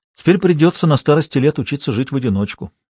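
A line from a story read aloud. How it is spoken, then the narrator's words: Calm. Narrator (Russian): проговорил Владимир Петрович спокойно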